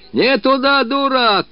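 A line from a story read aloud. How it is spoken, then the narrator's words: Shouting after someone. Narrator (Russian): кричал ей вслед Мыльников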